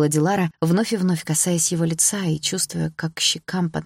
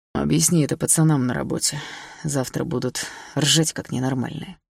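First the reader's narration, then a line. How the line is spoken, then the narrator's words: Snorting scoff. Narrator (Russian): хмыкнул Лёша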